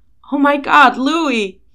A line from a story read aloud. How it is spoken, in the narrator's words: He shouts down, the sound echoing through their phones as well